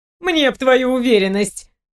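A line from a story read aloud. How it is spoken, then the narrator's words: Snorting. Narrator (Russian): хмыкнула Зои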